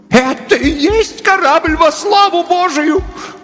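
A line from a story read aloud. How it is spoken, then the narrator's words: Terrified scream. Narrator (Russian): в ужасе закричала миссис Беллоуз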